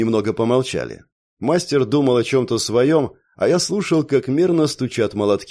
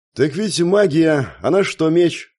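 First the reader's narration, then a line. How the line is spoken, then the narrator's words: Scoffing grunt. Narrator (Russian): хмыкнул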